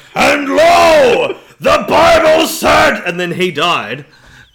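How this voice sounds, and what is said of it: Screaming preacher-style voice. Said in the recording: “ruining my throat ... I'm screaming about the Bible”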